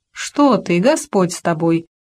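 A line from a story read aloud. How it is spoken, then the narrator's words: Laughing. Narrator (Russian): рассмеялась она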